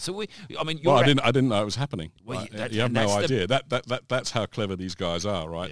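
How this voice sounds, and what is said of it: Posh southeast English accent. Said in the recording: “your accent ... I really hail from the south of the UK, so kind of between London and Brighton in that sort of southeast corner ... it does carry some authority ... God, you're posh”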